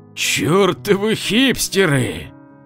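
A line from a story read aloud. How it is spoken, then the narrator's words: Grumbling. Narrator (Russian): проворчал Валера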